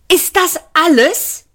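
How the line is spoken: Shouted. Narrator (German): schrie

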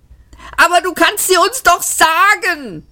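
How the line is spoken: Screaming. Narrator (German): schrie Luung Kual

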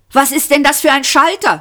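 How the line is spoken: Shouted. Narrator (German): schrie

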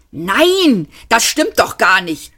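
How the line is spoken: Angry shout. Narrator (German): schrie ärgerlich

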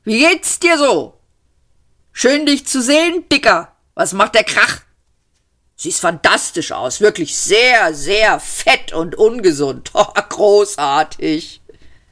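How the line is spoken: Called out. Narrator (German): rief

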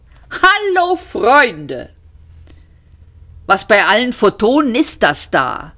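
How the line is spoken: Called out. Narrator (German): rief Seyfert

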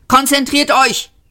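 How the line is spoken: Hissing. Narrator (German): zischte Seyfort

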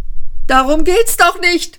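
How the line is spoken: Angry shrieking. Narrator (German): kreischte Ford wütend

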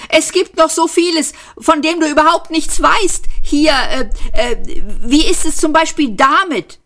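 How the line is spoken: Calling out to guard. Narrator (German): rief er dem Posten zu

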